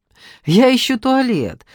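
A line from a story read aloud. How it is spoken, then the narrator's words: Lively voice. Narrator (Russian): оживленным голосом проговорила Надежда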